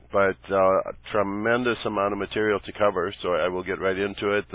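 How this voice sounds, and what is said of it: Croaky, frog-like voice. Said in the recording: “talking kind of like a frog”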